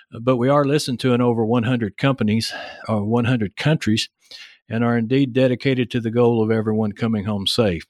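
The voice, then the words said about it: Heavy Texas accent. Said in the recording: “my heavy Texas accent”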